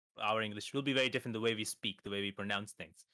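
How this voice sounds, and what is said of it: Indian English accent. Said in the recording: “I'm from India ... when somebody from India speaks, his tone or his accent is different than an American”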